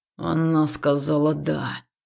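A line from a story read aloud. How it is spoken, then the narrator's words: Menacing growl. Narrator (Russian): грозно прорычал Хаул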